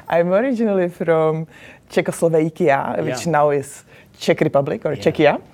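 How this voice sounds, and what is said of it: Foreign accent. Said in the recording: “Clearly you have an accent.”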